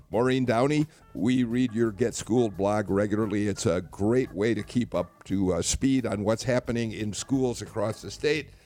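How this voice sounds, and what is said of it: Hoarse voice. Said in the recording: “my kind of hoarse voice”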